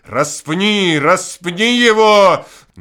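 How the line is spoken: Crowd shouting. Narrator (Russian): аудиторий Петрограда, Москвы, Одессы, Киева, и не было ни одного, который не кричал бы

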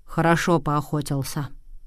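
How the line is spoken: Plain. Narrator (Russian): ответил он

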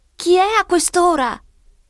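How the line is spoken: Shout from window. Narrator (Italian): grida una voce dalla finestra

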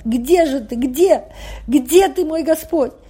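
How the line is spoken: Sobbing calls. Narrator (Russian): Он, рыдая, звать

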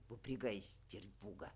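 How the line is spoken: Grumbled. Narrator (Russian): Буркнув

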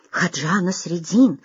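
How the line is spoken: Courtiers whispering. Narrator (Russian): зашептались придворные

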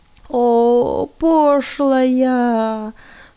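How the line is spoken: Moaning. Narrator (Russian): стонал Герман Йенский

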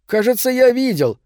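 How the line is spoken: Shouted. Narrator (Russian): крикнул Морелли

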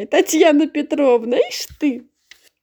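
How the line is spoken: Old woman laughing to tears. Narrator (Russian): старушка смеялась до слез, повторяя

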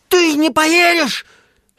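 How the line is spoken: Angry question. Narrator (Russian): сердито спрашивал Чечевицын

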